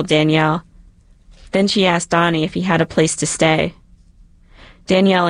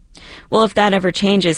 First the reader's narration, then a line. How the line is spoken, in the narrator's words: Cynthia said